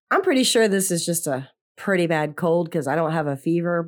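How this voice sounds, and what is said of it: Sick, strained voice. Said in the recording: “I'm sure you could tell from my voice that I am very under the weather ... I'm having a hard time talking, as you can hear in my voice.”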